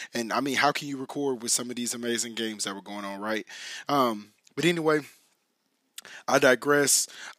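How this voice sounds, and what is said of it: Slightly raspy voice. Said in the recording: “trying to recover my voice ... why my voice is a little raspy”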